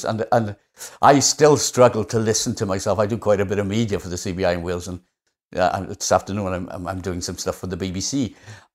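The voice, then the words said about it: Strong Welsh accent. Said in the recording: “I've got quite a strong accent, which unbelievably has mellowed over the years ... such a strong Welsh accent”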